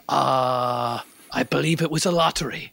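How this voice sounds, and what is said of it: Put-on pirate-like accent. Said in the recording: “I would not have guessed Spain, no. Maybe like a pirate of some kind.”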